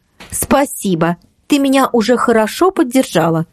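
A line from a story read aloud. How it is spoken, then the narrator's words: Exclaiming. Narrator (Russian): воскликнула Ксюша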